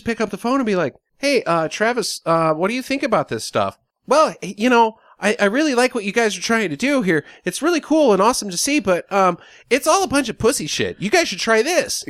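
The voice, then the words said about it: Imitates another person's nice-guy voice. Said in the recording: “probably the best impersonation I've ever done of anybody. That's exactly how Travis Pastrana talks. He's like the ultimate nice guy ever.”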